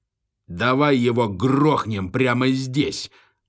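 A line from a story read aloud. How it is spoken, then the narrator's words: Roaring. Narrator (Russian): взревел квадратноголовый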